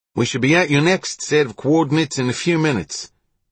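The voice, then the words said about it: Australian accent. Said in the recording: “spoke over the radio in his Australian accent.”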